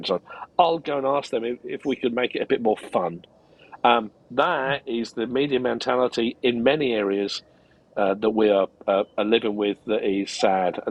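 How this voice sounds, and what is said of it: English accent like Ricky Gervais. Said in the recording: “I love your accent ... sounds like Ricky Gervais”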